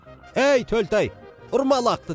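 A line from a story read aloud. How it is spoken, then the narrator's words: Shouting. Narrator (Kazakh): деп айқайлады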